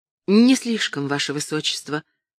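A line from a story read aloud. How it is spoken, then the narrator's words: Calm, polite reply. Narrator (Russian): ответила она, спокойно и вежливо звучит ее голос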